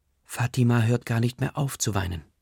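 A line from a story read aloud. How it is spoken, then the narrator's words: Plain. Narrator (German): sagt Chanti Chachi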